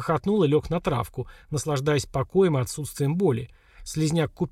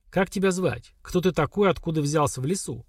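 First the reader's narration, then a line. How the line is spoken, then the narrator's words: Stern interrogating. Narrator (Russian): строго спросила Лера, входя в образ следователя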